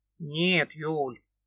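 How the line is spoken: Rough interruption. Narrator (Russian): Грубо перебивает меня Свирский

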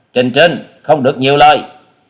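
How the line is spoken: Glaring sharp shout. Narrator (Vietnamese): Hà Xà tiên tử trừng mắt quát

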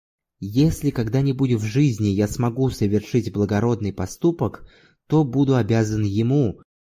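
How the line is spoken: Whisper. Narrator (Russian): прошептал

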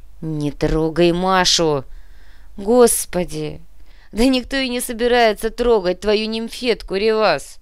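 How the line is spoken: Laughing. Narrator (Russian): рассмеялась Олеся

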